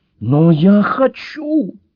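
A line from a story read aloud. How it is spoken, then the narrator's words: Wailing. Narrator (Russian): взвыла ангел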